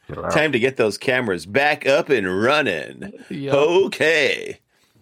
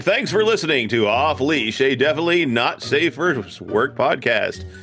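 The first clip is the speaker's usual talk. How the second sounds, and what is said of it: Announcer-style voice. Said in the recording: “now that I got my announcer voice on”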